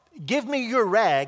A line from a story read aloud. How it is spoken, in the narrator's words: said